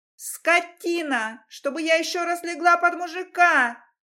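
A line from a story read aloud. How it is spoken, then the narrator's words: Piercing shriek. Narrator (Russian): Вопила Антонина на грани ультразвука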